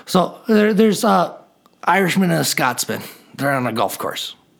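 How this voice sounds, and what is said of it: Put-on Irish accent. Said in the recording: “I'll do this one with an Irish accent because I love my Irish accent.”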